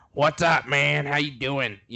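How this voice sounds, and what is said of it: Poor imitation of another person's voice. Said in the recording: “that was an awful impersonation”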